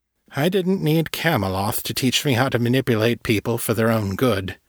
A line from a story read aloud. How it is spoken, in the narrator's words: Marai said dryly